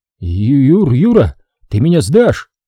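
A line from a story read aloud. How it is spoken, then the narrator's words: Trembling question. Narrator (Russian): спросил дрожащим голосом Закиров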